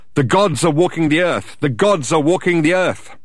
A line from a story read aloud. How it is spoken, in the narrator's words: started to shout out